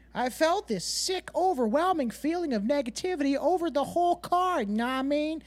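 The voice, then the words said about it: Attempted female voice. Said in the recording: “I couldn't do a great female voice”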